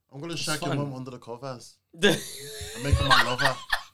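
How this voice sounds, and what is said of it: Put-on comic accent. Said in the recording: “the accent is killing me.”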